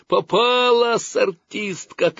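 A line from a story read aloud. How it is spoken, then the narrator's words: Boys shouting together. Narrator (Russian): кричали мальчишки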